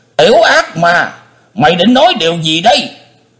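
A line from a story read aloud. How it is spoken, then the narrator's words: Roaring like a beast. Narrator (Vietnamese): Tử Hải Thiên Dương chồm lên gầm như thú dữ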